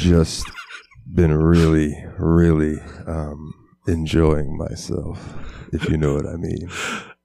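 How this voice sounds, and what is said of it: Put-on sexy voice. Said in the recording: “you have to do it in the sexy voice”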